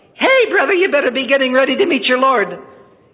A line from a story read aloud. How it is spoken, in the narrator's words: this little fellow, in his high, squeaky voice, he screeched out